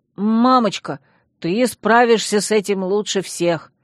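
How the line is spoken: Fawning boy exclaiming. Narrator (Russian): заискивающе воскликнул мальчуган

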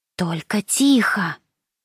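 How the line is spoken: Whisper. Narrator (Russian): прошептала Франческа

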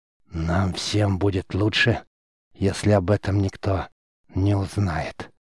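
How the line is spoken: Hoarse. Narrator (Russian): хрипло произнес Геллард

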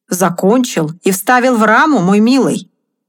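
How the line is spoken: Plain. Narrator (Russian): ответил Тревор

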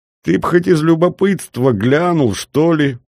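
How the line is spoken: Forced out through laughter. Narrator (Russian): выдавил майор сквозь смех

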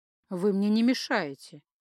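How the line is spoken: Completely calm. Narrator (Russian): совершенно спокойно сообщил он

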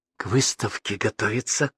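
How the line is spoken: Whispered. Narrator (Russian): шепотом пояснила радуга

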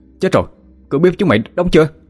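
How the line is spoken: Alarmed shout. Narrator (Vietnamese): Hùng hét lên

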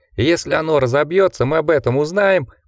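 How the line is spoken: Squeaky. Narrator (Russian): пропищал Гардинер

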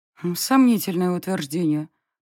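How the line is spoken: Muttered under breath. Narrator (Russian): пробормотала я себе под нос

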